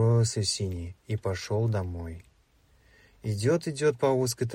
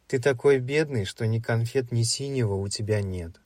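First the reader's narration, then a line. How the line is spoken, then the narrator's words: Said, laughing louder. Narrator (Russian): сказал зеленый и рассмеялся еще громче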